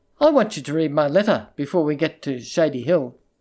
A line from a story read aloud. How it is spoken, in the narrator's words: she said